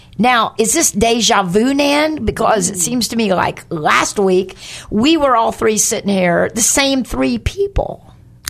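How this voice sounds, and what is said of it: Slightly hoarse voice. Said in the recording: “a little hoarse here today”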